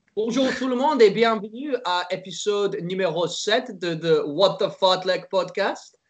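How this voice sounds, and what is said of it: Put-on French accent. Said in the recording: “my little French accent at the end”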